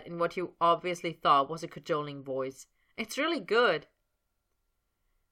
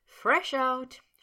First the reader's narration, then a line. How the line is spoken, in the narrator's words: she admitted, dissolving into giggles